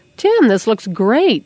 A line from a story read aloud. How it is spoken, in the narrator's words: Dad exclaimed